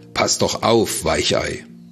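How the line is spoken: Mocking shout. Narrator (German): rief er höhnisch

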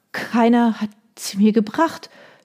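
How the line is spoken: Stammering. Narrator (German): stammelte sie

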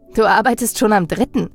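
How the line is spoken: Laughing. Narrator (German): lachte ich ihn an

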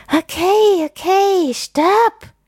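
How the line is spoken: Panting. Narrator (German): keucht er

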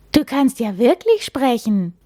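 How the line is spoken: Astonished call. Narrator (German): ruft Henry verblüfft

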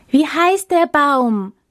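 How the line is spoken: Hopeful, expectant shouting. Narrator (German): schrien sie voller Hoffnung und Erwartung

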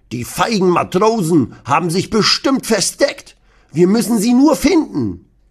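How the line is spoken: Grandpa blustering loudly. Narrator (German): Opa Rudi poltert

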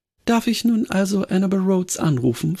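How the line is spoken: Plain question. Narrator (German): fragte ich

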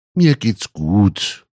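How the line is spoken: Speech then faint moan. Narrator (German): hörte sie Mutti sagen, gefolgt von einem leisen, fast unhörbaren Stöhnen

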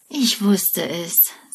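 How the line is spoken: Sighing. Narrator (German): seufzt er

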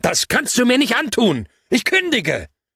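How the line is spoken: Bellowing into the phone. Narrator (German): konnte ich nicht anders, als ins Telefon zu brüllen

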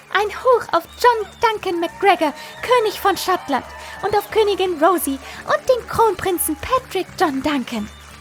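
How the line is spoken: Excited shout at full volume. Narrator (German): Fiona flatterte aufgeregt um uns herum und rief so laut sie konnte

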